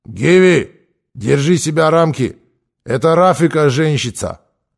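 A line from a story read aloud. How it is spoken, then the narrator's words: Stern but fair. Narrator (Russian): Ара Спартакович сказал строго, но справедливо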